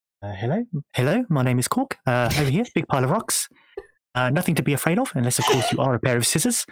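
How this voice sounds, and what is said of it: Korg character voice impression. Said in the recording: “in your cog voice ... It's very good.”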